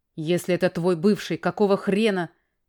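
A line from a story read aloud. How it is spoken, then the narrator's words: Roaring. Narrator (Russian): Взревел было Потапыч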